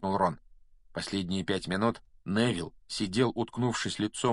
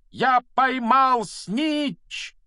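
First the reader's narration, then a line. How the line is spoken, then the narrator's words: Loud shout. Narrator (Russian): громко закричал он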